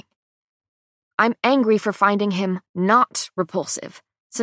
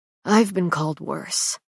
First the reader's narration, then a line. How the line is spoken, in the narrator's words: he murmurs after composing himself